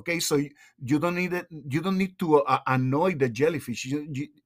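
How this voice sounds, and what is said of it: Thick foreign accent. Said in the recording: “get enthusiastic and my accent gets thicker”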